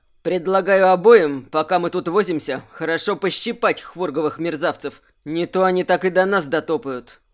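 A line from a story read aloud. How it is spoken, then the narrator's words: Growled. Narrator (Russian): прорычал он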